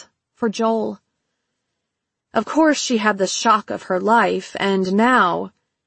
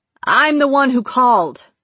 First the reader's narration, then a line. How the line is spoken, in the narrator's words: he shouted